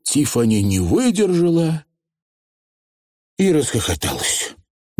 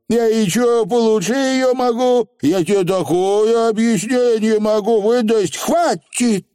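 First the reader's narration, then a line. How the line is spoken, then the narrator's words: Shout. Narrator (Russian): крикнула Тифани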